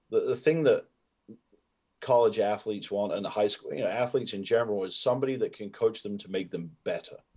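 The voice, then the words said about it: Softened hybrid British accent. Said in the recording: “my accent was a lot more pronounced than it is now, where it's kind of this hybrid softened accent”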